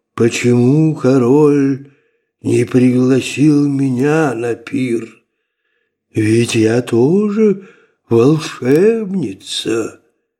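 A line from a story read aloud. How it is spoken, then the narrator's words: Gloomy. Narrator (Russian): мрачно проговорила она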